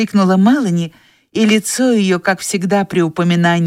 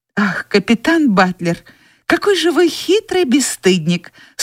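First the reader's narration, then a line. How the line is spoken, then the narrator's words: Smiling exclamation. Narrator (Russian): с улыбкой воскликнула Мелани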